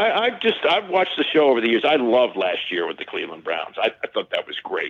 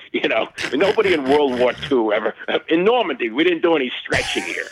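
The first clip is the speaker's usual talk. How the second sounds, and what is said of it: Put-on New England accent. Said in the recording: “he's got this great New England accent”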